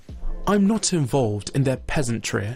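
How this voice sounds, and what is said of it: Put-on posh accent. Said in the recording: “in the most posh accent. Can you read this in your posh accent?”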